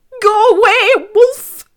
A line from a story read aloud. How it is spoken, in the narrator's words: He shouted